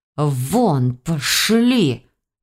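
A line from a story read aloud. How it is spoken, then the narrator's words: Hissed. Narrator (Russian): зашипела на нас библиотекарша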